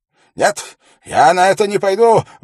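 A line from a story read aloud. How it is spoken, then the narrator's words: Raised-voice exclamation. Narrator (Russian): воскликнул Феррис, повышая голос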